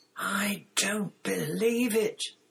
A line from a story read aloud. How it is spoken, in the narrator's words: Ron said in a stunned voice